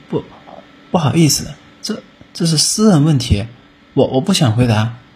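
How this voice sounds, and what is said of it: Trembling, stammering voice. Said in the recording (Chinese): “用颤抖的声音说”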